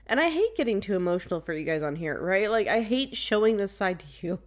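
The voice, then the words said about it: Emotional, cracking voice with sniffles. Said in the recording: “I know you guys can hear my voice cracking and getting sniffles and stuff”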